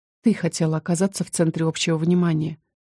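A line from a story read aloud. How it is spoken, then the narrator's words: Quiet, matter-of-fact. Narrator (Russian): тихо констатировала я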